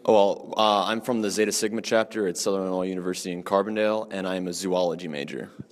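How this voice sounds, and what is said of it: Radio-style voice. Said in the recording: “I love your radio voice.”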